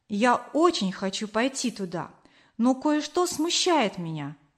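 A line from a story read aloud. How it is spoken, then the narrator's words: Plain. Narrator (Russian): ответил Кор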